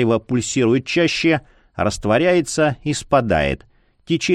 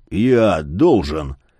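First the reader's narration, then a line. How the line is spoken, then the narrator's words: Hoarse wheeze. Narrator (Russian): Просипел Яр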